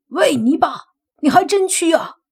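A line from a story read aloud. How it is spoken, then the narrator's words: Shouting. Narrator (Chinese): 莫凡大喊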